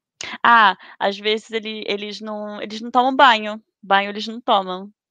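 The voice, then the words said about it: Put-on Portugal Portuguese accent. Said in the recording (Portuguese): “você pegou o sotaque? Muito, muito. ... então fala com o sotaque.”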